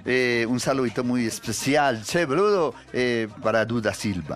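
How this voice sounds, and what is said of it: Put-on Argentine Spanish accent. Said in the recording (Spanish): “¿Pero por qué está hablando? ¿Pero por qué habla argentino?”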